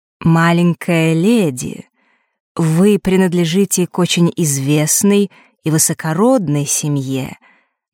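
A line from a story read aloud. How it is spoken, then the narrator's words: Benevolent tone, bald man. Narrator (Russian): начал этот лысый благожелательным тоном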